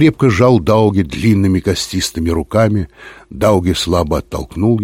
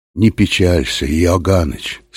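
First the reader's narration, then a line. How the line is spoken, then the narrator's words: Quiet. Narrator (Russian): сказал он тихо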